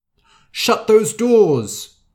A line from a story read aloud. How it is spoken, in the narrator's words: shouted the king